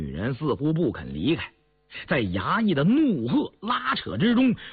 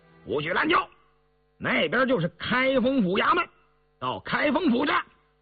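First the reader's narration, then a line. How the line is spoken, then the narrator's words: Angry shouts of runners. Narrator (Chinese): 前头衙役们怒喝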